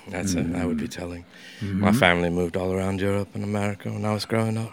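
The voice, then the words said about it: Mixed accent, mainly English. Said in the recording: “what's that funny accent you have? ... it's a mongrel accent. ... But it's mainly English. ... Yeah, a little bit of that.”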